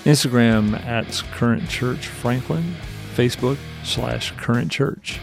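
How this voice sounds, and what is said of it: Put-on radio announcer voice. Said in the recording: “This is my best radio voice. The NPR voice requires you to get really close.”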